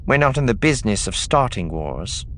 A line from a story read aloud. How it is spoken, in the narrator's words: Cena said coolly